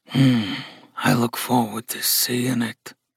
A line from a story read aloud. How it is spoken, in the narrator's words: Gus said in a low growl